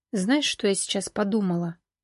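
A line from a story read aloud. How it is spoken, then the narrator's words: Quiet. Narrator (Russian): тихо произнесла Валерия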